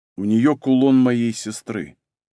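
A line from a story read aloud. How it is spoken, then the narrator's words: Calm male voice. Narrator (Russian): спокойно произнес мужчина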